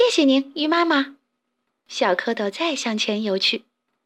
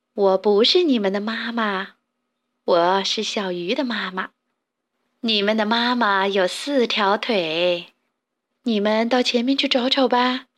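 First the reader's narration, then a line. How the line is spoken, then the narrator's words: Laughing, kindly. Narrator (Chinese): 大鱼笑着说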